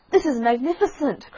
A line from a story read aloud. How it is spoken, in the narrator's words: cried the Rocket